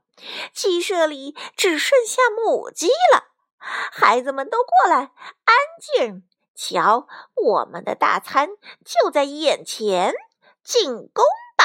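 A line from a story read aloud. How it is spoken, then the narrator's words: Weird gleeful laugh. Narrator (Chinese): 强盗爸爸怪声笑道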